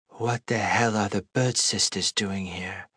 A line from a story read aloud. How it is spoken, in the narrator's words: Fia whispered to me, as confused as I was